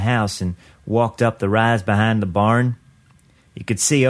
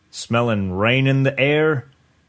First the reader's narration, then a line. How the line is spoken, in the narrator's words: Uncle Kenny laughed